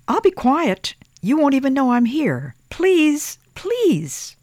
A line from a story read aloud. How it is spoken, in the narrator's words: piped in Thomas